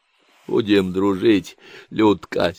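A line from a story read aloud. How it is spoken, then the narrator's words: Wheezy hiss. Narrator (Russian): сипел он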